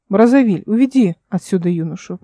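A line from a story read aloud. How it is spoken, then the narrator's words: Calm lord. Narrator (Russian): произнес владыка спокойно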